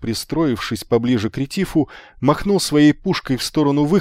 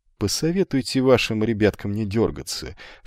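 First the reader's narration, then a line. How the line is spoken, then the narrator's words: Polite social tone. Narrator (Russian): светским тоном сказал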